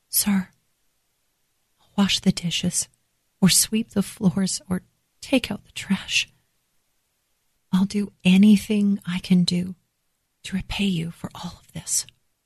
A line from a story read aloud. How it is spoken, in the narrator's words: in a shaking voice, I whispered